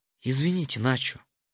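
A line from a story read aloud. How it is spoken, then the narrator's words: Very quiet. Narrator (Russian): тихо-тихо проговорил сеньор Рохас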